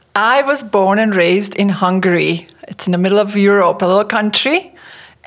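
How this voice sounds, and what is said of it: Slight foreign accent. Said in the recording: “a little bit of an accent”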